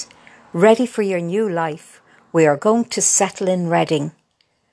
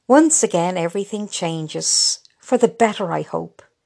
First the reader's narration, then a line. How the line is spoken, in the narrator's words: sighed Kay